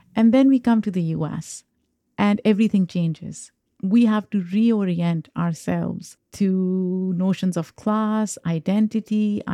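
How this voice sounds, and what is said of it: Foreign-accented English. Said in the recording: “I have an accent.”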